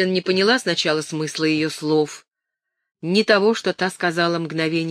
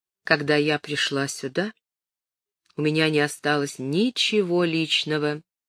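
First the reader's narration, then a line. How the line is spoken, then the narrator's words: Calm. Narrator (Russian): спокойно сказала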